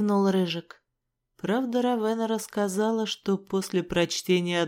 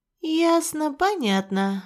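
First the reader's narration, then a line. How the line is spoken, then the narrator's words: Sighing. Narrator (Russian): вздохнула я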